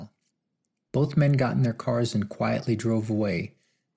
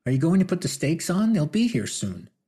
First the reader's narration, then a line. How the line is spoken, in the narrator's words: cried Lily from the kitchen